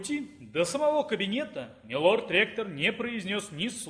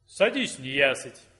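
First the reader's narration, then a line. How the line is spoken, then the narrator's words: Plain. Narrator (Russian): наконец сказал волшебник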